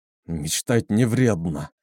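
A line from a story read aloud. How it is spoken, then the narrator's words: Hoarse rasp. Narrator (Russian): прохрипел он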